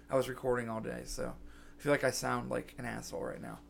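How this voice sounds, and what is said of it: Scratchy, hoarse voice. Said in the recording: “My voice is so scratchy. I've been kind of sick ... my voice is all scratchy”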